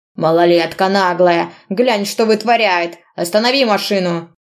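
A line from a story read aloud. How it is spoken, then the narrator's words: Driver shouting. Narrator (Russian): Кричал водитель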